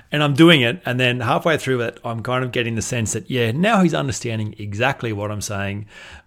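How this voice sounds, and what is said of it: Australian drawl. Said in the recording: “I was from Australia ... you Aussies, you guys are so hard to understand ... my Australian drawl”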